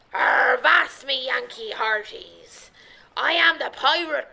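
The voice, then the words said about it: Put-on pirate accent. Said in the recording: “can you do an accent? ... You have to do the accent.”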